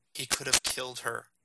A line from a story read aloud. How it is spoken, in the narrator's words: Jason returned, so softly that he wasn't sure if he was heard